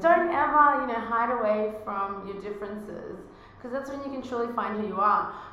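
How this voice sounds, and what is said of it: Australian accent. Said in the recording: “my Australian accent in America”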